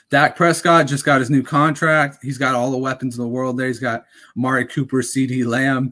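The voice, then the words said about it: Raspy, strained voice. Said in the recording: “my voice is going a little raspy.”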